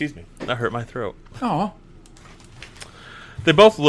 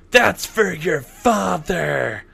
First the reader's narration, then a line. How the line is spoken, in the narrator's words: Dawn can be heard yelling